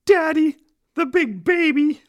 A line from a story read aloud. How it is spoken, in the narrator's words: The little boy said in a shaky voice